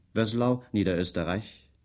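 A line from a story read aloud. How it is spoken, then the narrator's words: Dry question. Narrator (German): fragte er trocken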